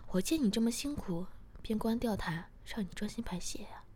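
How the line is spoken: Laughing. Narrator (Chinese): 我笑着说

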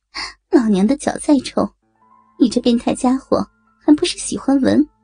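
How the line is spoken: Laughing. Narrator (Chinese): 美红笑着

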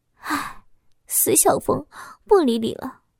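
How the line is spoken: Sighing. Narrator (Chinese): 我叹息了一声

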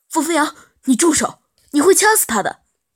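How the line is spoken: Panicked shout. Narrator (Chinese): 杜安生脸色一下子都白了，他慌忙喊着

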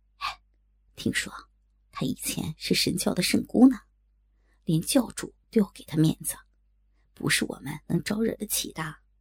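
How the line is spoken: Lowered voice. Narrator (Chinese): 他随后压低声音

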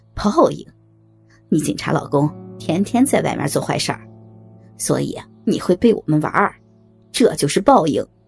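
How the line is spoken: Cold sneer. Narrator (Chinese): 小伟冷笑一声

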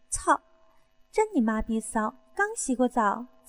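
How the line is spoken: Laughing curse. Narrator (Chinese): 我笑骂道

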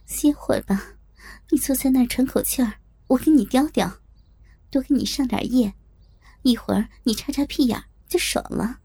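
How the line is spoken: Smiling. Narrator (Chinese): 笑着对他说

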